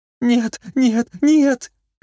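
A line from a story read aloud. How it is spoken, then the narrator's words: Frightened squeak. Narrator (Russian): пищала, сжимаясь в комок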